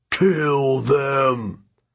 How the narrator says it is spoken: One of the giants growled

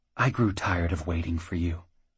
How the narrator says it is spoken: whispered

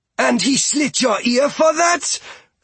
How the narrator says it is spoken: Fia bellowed, the veins standing out on her forehead in rage

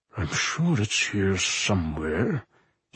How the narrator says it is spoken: he murmured to himself

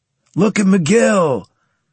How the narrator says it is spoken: Carlos shouted

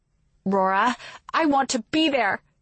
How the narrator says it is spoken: she shouts

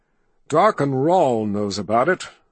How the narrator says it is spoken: Richard said bitterly

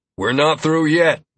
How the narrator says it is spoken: Lazarus grunted, breathing hard

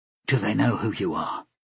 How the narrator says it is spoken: she asked quietly

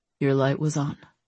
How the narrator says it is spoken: said quietly

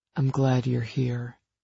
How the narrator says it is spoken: he murmured

